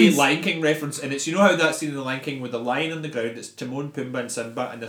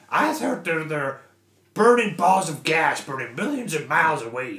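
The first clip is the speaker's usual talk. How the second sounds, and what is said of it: Pumbaa impression. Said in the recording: “That's the good Pumbaa impression.”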